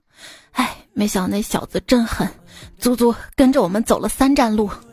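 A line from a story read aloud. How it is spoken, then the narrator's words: Breathless, panting. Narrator (Chinese): 喘着气说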